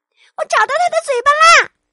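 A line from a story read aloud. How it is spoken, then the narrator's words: Shouting. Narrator (Chinese): 熊宝宝大喊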